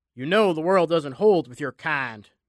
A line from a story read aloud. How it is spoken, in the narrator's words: Jack snarled